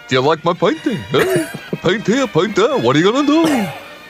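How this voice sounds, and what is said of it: Rembrandt with a New York accent. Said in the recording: “So imagine Rembrandt talking. He would have spoken like a New York Jew.”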